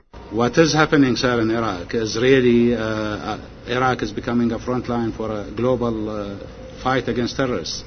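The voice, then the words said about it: Heavy foreign-sounding accent. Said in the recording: “if this Alawi guy is really from Iraq, why does he have the same accent as Arianna Huffington?”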